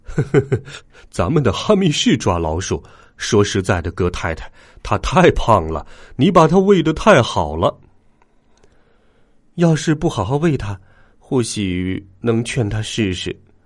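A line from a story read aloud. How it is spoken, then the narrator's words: Chuckling. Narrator (Chinese): 格尔林先生咯咯咯的笑起来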